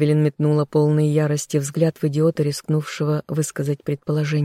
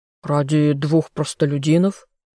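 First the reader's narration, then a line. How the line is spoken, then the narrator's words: Scoffing snort. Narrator (Russian): хмыкнул еще кто-то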